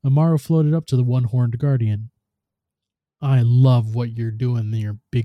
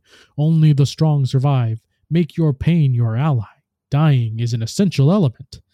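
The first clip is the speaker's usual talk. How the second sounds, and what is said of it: Loud booming imitation of Lord Shax. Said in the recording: “raised his voice in imitation of the Titan's booming commentary”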